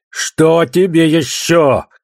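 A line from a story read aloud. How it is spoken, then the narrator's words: Shouted downward. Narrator (Russian): крикнул он вниз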